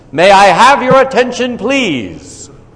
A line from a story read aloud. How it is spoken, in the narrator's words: he announced in a very loud voice